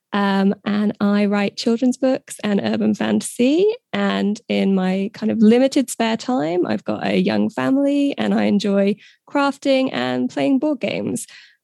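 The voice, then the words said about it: British accent. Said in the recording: “You might be able to tell from my accent. I'm British”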